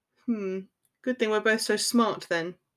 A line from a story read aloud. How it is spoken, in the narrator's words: he said dryly